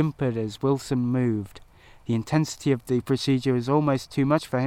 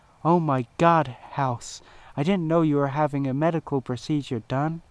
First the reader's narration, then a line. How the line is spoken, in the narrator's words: exclaimed Cameron in shock at the sight in front of her